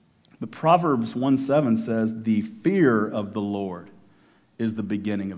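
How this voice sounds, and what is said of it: Usual voice. Nothing is said of it.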